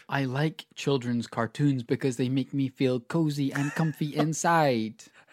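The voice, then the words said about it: Baby voice. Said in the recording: “You're doing a baby voice, by the way, towards the end of that sentence.”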